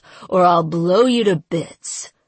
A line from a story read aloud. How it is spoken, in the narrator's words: he snarled